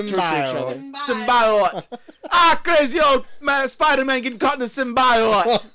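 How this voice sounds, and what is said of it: Put-on Jamaican accent. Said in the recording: “That's my impression of a Jamaican describing the plot to Spider-Man 3.”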